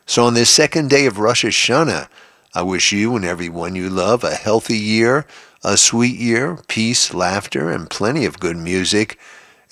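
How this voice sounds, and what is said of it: Slightly congested voice from cold. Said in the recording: “you'll probably hear it in my voice this morning. I'm getting over a little bit of a cold.”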